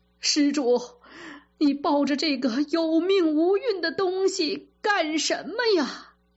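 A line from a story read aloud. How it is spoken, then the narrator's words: Wailing, crying. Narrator (Chinese): 癞头和尚…就大哭起来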